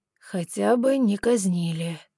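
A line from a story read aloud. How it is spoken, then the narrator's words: Gloomy self-consolation. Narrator (Russian): мрачно утешал он себя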